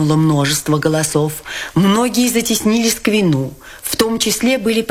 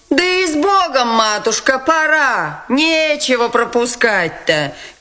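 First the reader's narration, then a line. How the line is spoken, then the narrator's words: Deeply shaken shout. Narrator (Russian): крикнула Дарья Алексеевна, глубоко потрясенная происшедшим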